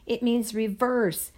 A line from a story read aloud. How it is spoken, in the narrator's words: I shouted over the engine's roar